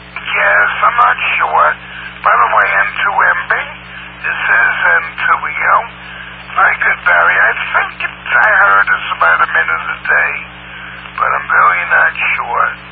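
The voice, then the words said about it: Hoarse voice. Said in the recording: “my voice is still hoarse. I hope that goes away, but I probably got damage to my vocal cords.”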